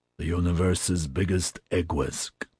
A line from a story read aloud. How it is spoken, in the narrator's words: Harvey growled